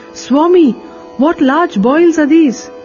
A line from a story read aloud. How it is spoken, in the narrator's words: Malsupati, who was standing near, exclaimed